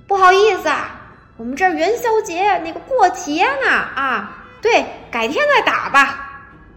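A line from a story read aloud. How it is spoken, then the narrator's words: Loud speech. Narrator (Chinese): 对面的人也很大声的说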